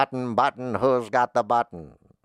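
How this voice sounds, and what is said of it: Imitates another person's voice. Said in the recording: “That's my Robert Frost impression.”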